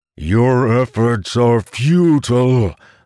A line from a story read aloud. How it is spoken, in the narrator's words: the monster bellowed